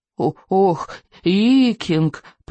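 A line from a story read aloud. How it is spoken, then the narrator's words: Groaning. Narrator (Russian): простонал Беззубик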